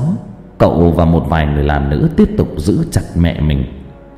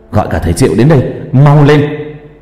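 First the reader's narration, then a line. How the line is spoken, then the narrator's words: Loud shout. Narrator (Vietnamese): Cường hét lớn với đám người làm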